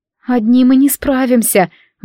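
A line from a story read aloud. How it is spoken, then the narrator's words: Sighed. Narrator (Russian): вздохнула Лори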